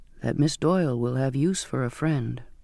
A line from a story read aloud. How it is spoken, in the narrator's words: he said softly